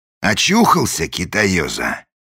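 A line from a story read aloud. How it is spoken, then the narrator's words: Menacing question. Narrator (Russian): грозно спросил вошедший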